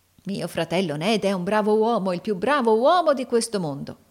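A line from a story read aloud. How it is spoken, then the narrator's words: Exclaimed. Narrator (Italian): esclamò Carlo Cheeryble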